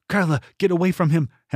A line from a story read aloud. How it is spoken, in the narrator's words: Henley cried